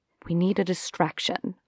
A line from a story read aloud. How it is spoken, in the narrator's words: I said under my breath